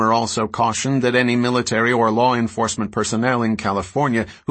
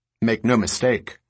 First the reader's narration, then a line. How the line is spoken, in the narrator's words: Romer said